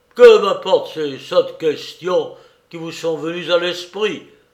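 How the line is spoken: Exclaimed. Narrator (French): s'écria-t-il

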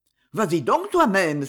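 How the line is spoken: Grandfather exclaiming. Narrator (French): s'écriait le grand-père

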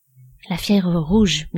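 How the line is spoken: Murmured. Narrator (French): murmura Soleilla

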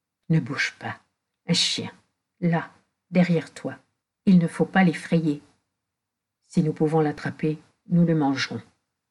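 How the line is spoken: Breathy low whisper. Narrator (French): d'une voix basse, comme un souffle

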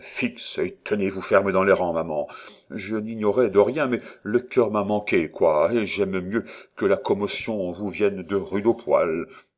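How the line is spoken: Very quiet. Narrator (French): dit-il tout bas

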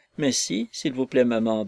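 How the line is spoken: Timid, blushing. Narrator (French): dit Lucy timidement, en rougissant

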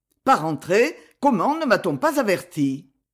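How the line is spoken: Curt voice. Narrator (French): Et le duc, d'une voix brève

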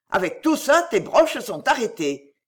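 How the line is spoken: Shout. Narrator (French): cria-t-il à Rosalie

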